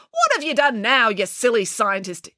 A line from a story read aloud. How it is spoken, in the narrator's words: exclaimed the housekeeper